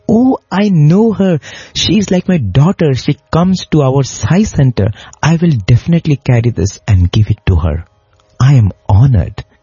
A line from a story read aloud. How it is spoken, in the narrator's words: in great joy, he exclaimed